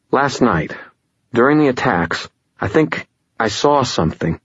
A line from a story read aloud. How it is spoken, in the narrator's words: sighed